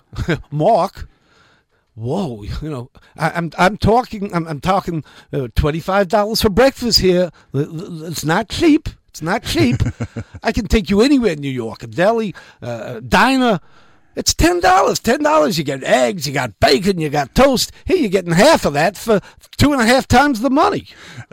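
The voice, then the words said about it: Strong put-on New York accent. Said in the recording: “imitate one of them talking about it? I just want to hear that New York accent ... Well, they've got very strong New York. ... That's very good.”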